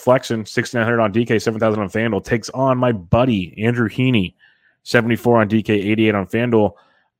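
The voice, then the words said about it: Sarcastic tone. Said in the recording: “I know you said that sarcastically.”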